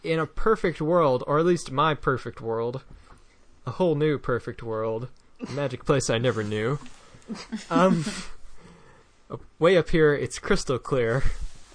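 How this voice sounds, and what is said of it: Very flat monotone recitation. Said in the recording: “in a very flat, monotone voice”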